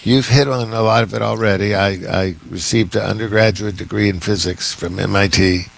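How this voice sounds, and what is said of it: Rough, slightly hoarse voice. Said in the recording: “my voice is a little bit rough this morning... it's starting to impinge maybe a little bit on my vocal cords”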